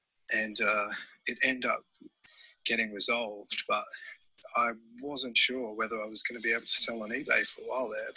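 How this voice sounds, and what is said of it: Australian accent. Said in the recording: “how sexy is that accent though? ... oh, the Australian accent, yeah. ... I don't think there's a better accent in the whole world than Australian”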